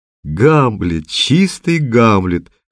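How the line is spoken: Short laugh. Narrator (Russian): хохотнул Немоляев

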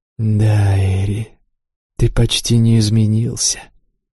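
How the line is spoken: Soft smiling. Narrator (Russian): мягко улыбнулся Шор

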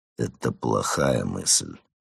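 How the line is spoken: Grumbling. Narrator (Russian): проворчал Марван

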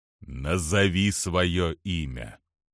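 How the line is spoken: Sepulchral commanding voice. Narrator (Russian): тем же замогильным голосом приказал адмирал

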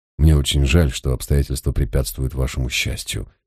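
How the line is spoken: Quiet. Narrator (Russian): тихо произнес я

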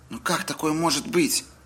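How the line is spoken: Exclamation. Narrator (Russian): воскликнул Джейк

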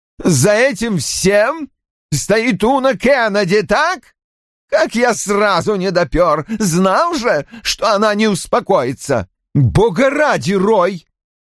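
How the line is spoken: Loud. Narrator (Russian): громко сказала Ким

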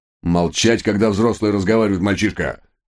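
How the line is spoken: Menacing bark. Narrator (Russian): грозно рявкнул инспектор

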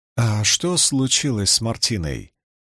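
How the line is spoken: Quiet question. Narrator (Russian): тихо спросила Найнев

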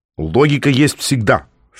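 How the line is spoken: Stern. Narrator (Russian): строго ответил Котя

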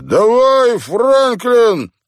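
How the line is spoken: Encouraging. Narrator (Russian): подбодрил Вирджил

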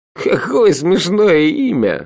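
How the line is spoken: Laughing out loud. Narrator (Russian): расхохотался Шурф

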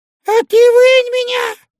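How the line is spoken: Squeak. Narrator (Russian): пискнул Удалов

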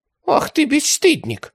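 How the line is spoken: Giggling. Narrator (Russian): хихикнул фрау Карла

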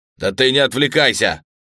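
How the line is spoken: Barking. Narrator (Russian): рявкнул Фелдер

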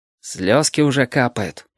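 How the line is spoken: Gloomy remark. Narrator (Russian): мрачно заметил Павлик

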